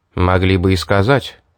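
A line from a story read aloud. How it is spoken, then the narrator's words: Cold. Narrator (Russian): холодно произнес я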